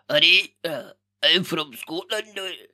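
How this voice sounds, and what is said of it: Attempted put-on Scottish accent. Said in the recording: “try and do a Scottish accent, it hurts the fuck out of my throat ... this is my attempt”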